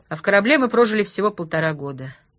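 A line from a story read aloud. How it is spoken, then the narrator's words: Even voice. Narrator (Russian): Молчанов ровным голосом произнес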